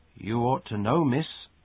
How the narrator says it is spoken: said the nurse

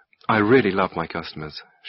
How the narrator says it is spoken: Shen said

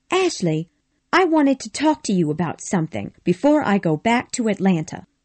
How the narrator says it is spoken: Scarlet said cheerfully

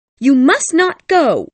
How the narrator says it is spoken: she cried

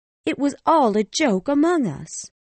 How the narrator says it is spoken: she cried in embarrassment

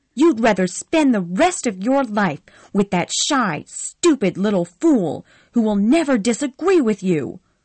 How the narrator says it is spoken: Scarlet said furiously

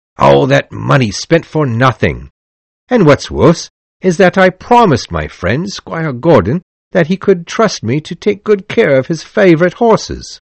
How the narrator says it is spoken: the master ... said to his driver angrily

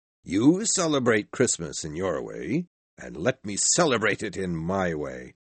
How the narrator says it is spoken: said Scrooge firmly

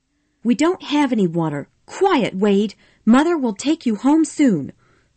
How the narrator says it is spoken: Scarlett said loudly

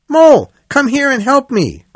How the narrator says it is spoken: cried Rat

